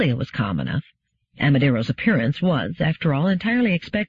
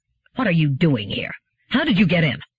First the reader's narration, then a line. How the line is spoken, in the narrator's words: his anger arose and he said harshly